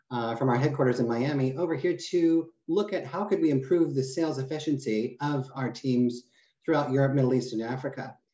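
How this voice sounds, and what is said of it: American accent. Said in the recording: “I came from America. Obviously, you can hear the accent.”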